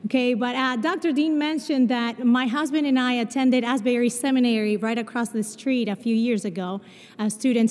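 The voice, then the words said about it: Mixed Spanish-Portuguese accent. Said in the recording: “you will notice that I have an accent... I was born in Brazil, but I grew up in Argentina... my accent is a mix of Spanish and Portuguese”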